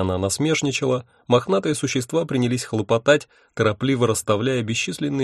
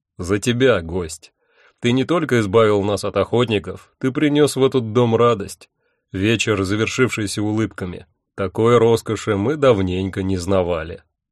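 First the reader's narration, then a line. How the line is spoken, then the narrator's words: Solemn. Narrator (Russian): торжественно сказал Один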